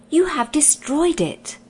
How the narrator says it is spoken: cried Lord Roop

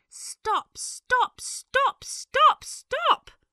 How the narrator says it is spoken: He cried

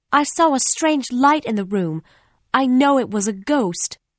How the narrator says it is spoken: I cried, holding tightly on to Bessie

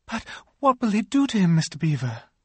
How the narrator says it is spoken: gasped Lucy

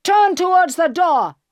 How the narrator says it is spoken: he shouted

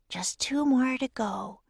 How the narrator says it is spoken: whispered

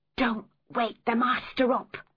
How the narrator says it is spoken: whispered

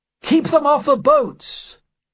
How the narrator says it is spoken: cried the doctor

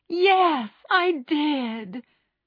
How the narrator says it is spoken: cried Meg

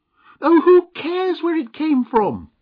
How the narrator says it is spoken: screamed Mavis, as the wolf came a few steps further into the room

